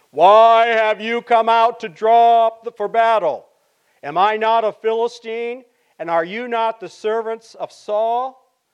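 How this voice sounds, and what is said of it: Booming giant's character voice. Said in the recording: “my best impersonation”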